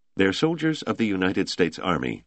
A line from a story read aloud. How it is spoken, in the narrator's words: Toomey said stiffly